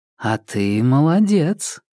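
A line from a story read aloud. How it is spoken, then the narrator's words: Unhaughty drawl. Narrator (Russian): протянула Карская, но протянула без высокомерного подтекста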